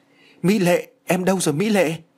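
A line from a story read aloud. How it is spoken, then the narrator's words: Cried out in shock. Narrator (Vietnamese): bàng hoàng kêu lên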